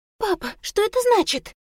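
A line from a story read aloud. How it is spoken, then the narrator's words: Impatient tense high-pitched girl. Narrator (Russian): Нетерпеливо воскликнула девушка высоким от напряжения голосом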